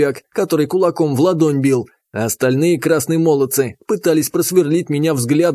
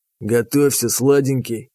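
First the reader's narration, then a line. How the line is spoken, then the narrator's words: Whisper. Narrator (Russian): шепнул он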